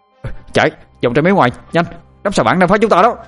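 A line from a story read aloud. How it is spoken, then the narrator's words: Shout. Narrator (Vietnamese): Tôi liền hét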